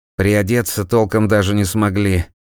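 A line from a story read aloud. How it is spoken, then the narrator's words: Grumbled through wind. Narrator (Russian): проворчал он сквозь холод и ветер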